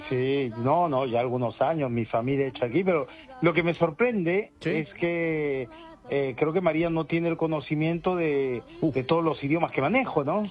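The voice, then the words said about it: Spanish with a put-on French accent. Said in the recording (Spanish): “¡Qué acento! ... es que lleva ya ahí mucho tiempo, Juan. Lleva como 3 semanas en París ya.”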